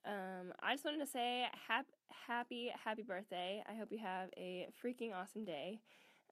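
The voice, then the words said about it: Deep, congested, stuffy-nosed voice. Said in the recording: “deep voice and stuffy nose”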